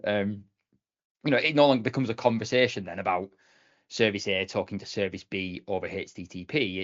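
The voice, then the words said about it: Non-native English accent. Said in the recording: “unless it's my English, then maybe not quite as easy to understand with my accent”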